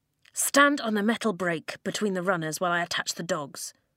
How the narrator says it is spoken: Flint muttered

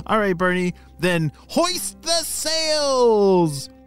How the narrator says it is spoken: shouted Everest

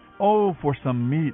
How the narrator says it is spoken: they exclaimed

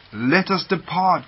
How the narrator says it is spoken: cried Mr

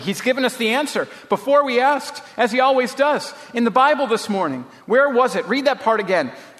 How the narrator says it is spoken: she said excitedly

